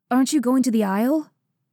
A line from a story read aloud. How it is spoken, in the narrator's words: She snorted at him